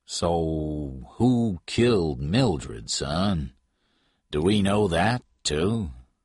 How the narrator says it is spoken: Patton said slowly

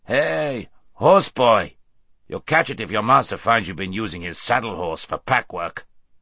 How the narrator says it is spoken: one of them with a rough laugh, saying

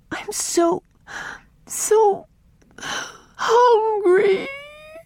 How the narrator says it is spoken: wailed Mary

